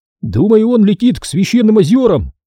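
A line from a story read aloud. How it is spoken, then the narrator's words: Shouted. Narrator (Russian): прокричал Оби-Ван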